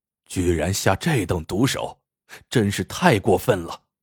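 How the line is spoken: Sighing. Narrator (Chinese): 那客人叹道

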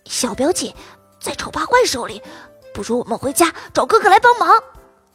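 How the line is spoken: Whisper in the ear. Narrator (Chinese): 托比附在糖糖耳边，小声说

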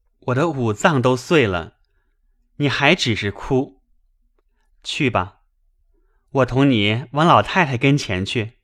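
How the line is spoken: Laughing. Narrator (Chinese): 宝玉笑道

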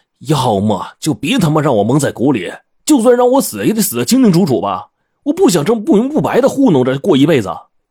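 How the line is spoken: Exasperated shout. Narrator (Chinese): 我实在忍不住了，冲着冰窟窿吼道

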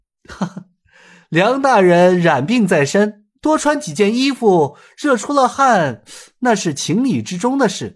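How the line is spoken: Chuckling. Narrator (Chinese): 尹建平又是笑了笑道

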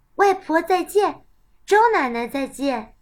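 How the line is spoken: Child speaking loudly. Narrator (Chinese): 小乐大声地说

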